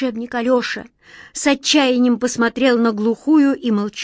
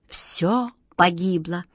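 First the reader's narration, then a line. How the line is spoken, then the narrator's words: Hopeless whisper, wizard. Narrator (Russian): безнадежно прошептал волшебник Алёша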